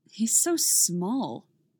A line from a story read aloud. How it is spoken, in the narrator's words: Steve scoffs at the wolf on screen, unable to contain his criticism